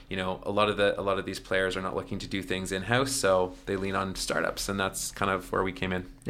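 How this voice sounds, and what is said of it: Slight Canadian accent. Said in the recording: “you do have a bit of an accent because you're from Canada”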